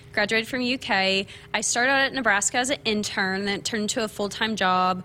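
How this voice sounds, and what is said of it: Kentucky accent. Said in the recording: “you might hear my accent. I am from small town Kentucky”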